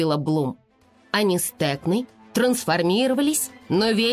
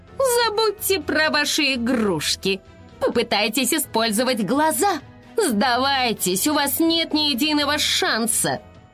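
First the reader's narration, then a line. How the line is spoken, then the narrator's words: Snide, mocking. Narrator (Russian): Айси ехидно сказала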